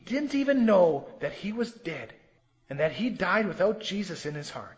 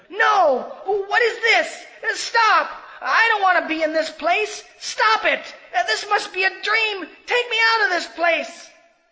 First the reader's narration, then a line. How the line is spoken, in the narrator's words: Immediately his body began to fill with worms, and he shouted